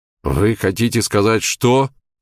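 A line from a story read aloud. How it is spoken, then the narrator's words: Trembling voice. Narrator (Russian): начал он дрожащим голосом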